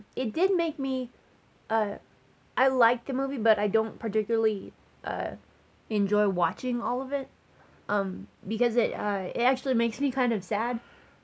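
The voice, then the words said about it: Choked-up, emotional voice. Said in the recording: “I'm getting choked up. I always get choked up”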